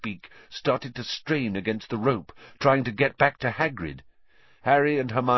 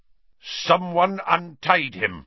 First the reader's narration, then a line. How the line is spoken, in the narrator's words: the executioner was snarling